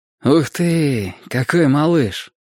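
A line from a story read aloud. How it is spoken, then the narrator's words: Tender. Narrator (Russian): ласково сказал Ник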